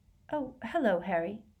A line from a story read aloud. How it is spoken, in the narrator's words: she said in a brittle voice